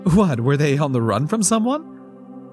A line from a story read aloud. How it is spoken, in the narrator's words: Paula laughed